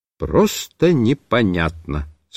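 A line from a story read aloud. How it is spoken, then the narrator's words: Plain. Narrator (Russian): сказал я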